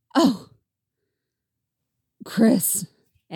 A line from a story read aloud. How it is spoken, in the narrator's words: Eddie sighed